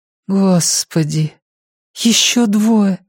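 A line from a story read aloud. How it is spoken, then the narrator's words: Breathless. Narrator (Russian): выдохнула Алиса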